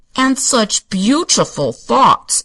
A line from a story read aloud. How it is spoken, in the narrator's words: observed the mayor testily, for he resented the interruption of his Sunday afternoon treat